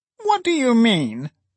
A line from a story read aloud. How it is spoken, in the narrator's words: cried Phyla sharply